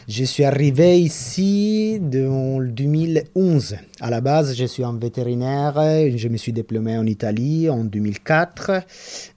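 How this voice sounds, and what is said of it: Italian accent speaking French. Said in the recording (French): “je suis italienne, je pense que l'accent, tout le monde va le reconnaître.”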